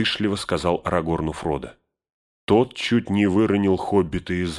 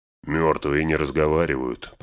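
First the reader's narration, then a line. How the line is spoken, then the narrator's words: Grumbling. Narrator (Russian): проворчал Гэндальф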